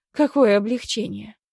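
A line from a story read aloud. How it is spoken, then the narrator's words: Snorting. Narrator (Russian): фыркнула я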